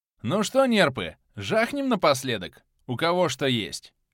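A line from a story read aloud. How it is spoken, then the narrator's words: Cheerful. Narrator (Russian): весело произнес глава нашей гильдии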